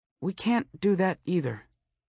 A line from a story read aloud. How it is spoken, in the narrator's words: she said, and her voice was as sad and lost as loneliness